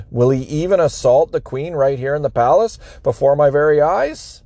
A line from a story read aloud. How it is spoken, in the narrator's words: The king exclaimed